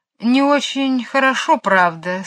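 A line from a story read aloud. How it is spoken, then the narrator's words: Sad. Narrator (Russian): сказал он грустно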